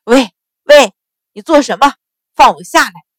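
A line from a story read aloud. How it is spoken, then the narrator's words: Alarmed loud shout. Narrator (Chinese): 钱旺被他一提一顿，双腿杵得生疼，这才明白事情不对，不禁大惊失色，大声叫道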